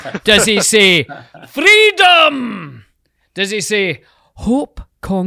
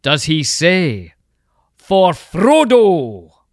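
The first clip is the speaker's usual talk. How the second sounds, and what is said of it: Put-on Scottish accent. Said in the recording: “your awesome Scottish accent.”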